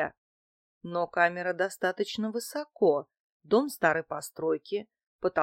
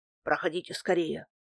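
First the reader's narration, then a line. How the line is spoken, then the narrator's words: Grumbling. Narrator (Russian): проворчал Дмитрий Иванович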